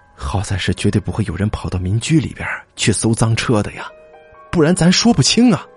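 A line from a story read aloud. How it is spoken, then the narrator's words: Sighing exclamation. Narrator (Chinese): 江鹏感叹道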